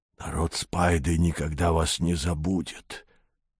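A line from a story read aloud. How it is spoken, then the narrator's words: Emotional tearful hiss. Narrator (Russian): прочувствованно прошипел Рамкег, и из всех его 12 глаз полились слезы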